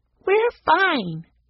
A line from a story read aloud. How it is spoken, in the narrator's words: Daisy piped up